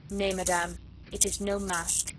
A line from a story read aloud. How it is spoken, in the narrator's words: said icily